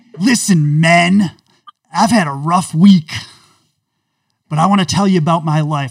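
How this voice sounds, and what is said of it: Imitates another person's voice. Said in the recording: “my special character, woke John Gruden ... I'm losing my voice”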